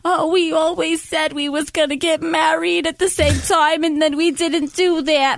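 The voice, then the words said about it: Exaggerated New Jersey accent imitation. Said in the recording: “with a heavy New Jersey accent ... I'm even doing it like better than what she's doing ... is that a Boston accent? ... It's a little Long Islandy sometimes”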